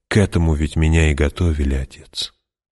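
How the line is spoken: Soft. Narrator (Russian): Та мягко сказала

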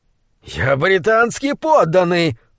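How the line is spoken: Shrill scream. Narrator (Russian): пронзительно закричал он

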